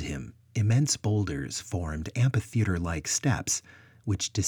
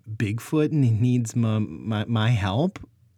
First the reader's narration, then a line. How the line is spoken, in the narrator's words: Luke stammered, recovering from his shock